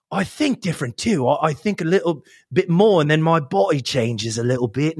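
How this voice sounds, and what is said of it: Put-on British accent, not great. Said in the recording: “when I change to this more British, and I don't think I do it the best”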